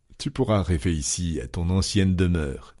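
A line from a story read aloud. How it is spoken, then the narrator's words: Plain. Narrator (French): dit le roi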